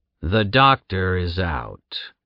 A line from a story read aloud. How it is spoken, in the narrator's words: the guard slowly said